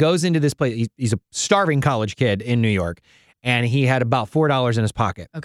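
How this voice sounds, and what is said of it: Usual voice. Nothing is said of it.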